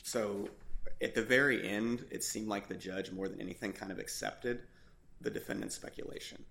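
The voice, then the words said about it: Strained, failing voice. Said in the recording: “I'm sorry that my voice is failing me.”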